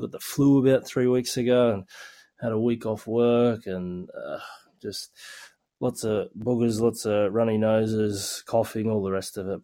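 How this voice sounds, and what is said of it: Sick-sounding voice. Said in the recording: “I don't know if you can tell by my voice, but I've been a bit crook lately”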